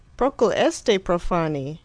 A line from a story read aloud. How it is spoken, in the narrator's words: exclaimed a delighted aesthete